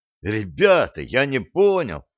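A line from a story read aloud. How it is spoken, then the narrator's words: Feigned bewildered exclamation. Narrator (Russian): с хорошо разыгранной растерянностью воскликнул Володин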